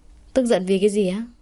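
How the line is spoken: Flat, faintly smiling. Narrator (Vietnamese): Tuấn Chiết lặp lại, trên môi giữ nguyên nụ cười nhạt nhẽo

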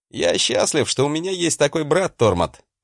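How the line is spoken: Plain. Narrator (Russian): ответил я ему

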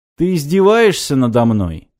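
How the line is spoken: Calm question. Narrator (Russian): спокойно спросил Киприади

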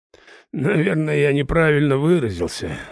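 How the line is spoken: Sighing. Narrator (Russian): вздохнул незваный гость

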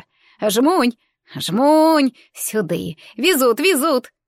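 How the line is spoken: Joyful toothless lisping. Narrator (Russian): Беззубый рот радостно шепелявил, приоткрывшись от восторга

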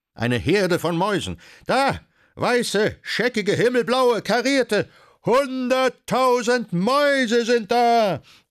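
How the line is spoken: Shrieking ladies. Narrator (German): die reinblütigen Damen kreischend

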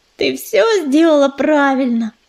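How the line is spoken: Purring. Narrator (Russian): промурлыкала белка

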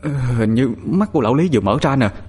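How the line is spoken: Stammering boy. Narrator (Vietnamese): Thằng Toàn lắp bắp nói

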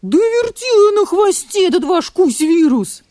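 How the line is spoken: Wolf's howl. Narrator (Russian): взвыл волк

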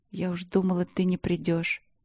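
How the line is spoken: Whisper against lips. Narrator (Russian): прошептала ему в губы

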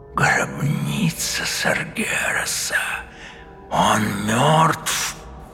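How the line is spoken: Whisper. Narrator (Russian): прошептал он

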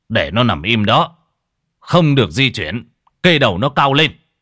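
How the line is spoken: Loud shout. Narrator (Vietnamese): Ông thầy Điền quát to

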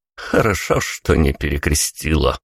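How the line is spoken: Quiet snort. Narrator (Russian): негромко фыркнул Тони

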